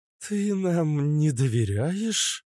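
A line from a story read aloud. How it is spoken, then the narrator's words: Mock-offended drawl. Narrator (Russian): Наигранно обиженно протянула темная эльфийка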